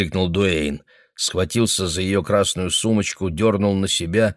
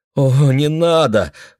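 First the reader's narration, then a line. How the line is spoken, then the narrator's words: Pleading. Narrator (Russian): взмолилась она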